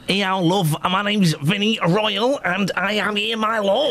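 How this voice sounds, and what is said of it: Put-on Manchester accent. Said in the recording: “He's doing the Manchester accent.”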